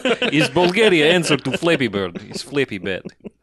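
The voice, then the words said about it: Bad put-on Bulgarian accent. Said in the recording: “It's probably the worst Bulgarian accent.”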